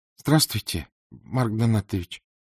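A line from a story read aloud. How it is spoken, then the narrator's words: Timid. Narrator (Russian): робко произнесла Саша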